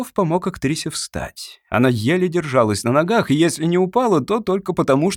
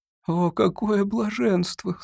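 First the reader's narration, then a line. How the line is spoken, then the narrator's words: Blissful moan. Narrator (Russian): стонала Маретти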